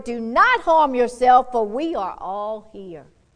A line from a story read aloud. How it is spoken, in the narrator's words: Paul shouted